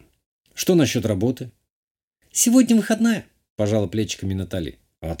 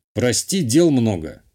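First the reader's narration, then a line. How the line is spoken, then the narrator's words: Dismissive snort. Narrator (Russian): хмыкнул я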